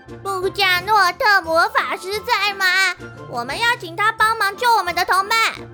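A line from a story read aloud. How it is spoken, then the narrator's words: Urgent shouting. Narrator (Chinese): 草草扑到木门上，大叫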